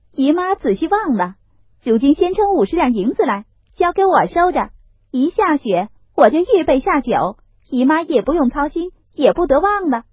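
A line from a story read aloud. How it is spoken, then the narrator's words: Laughing. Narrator (Chinese): 凤姐儿笑道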